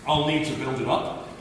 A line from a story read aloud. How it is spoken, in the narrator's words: he says